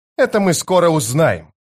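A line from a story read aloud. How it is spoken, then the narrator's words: Barked. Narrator (Russian): рявкнула она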